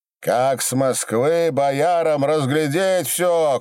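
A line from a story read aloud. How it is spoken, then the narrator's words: Hoarse hacking shout. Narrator (Russian): кричал, будто отхаркивался, Дронов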